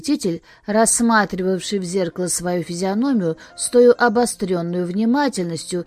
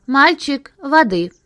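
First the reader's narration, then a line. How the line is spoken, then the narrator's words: Abrupt sharp shout. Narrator (Russian): Осип Абрамович, парикмахер, крикнул отрывисто и резко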